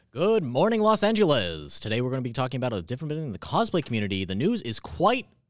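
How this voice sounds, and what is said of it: Mock TV news anchor voice. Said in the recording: “your good morning voice ... Like your news ... News voice.”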